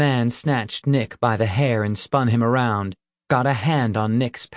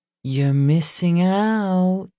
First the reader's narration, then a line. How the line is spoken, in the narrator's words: she cooed